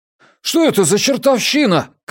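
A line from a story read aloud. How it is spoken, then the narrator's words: Shouting. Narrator (Russian): крикнул Джеспер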